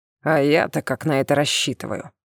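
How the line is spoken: Snorting, fangs bared. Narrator (Russian): Обнажив внушительные клыки, он фыркнул

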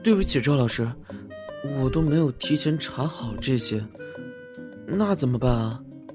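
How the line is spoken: Disappointed sigh, distressed. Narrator (Chinese): 罗明瑶失望地叹了口气，难受地说

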